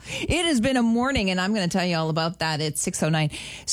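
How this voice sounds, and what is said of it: Breathless, out of breath speaker. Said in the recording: “My nerves are shot. I'm out of breath.”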